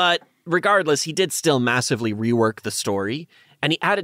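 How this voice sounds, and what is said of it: Usual voice. Nothing is said of it.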